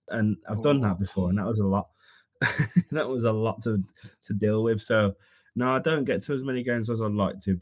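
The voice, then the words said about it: Birmingham English accent. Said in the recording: “I'm from Birmingham, if you can't tell from the accent.”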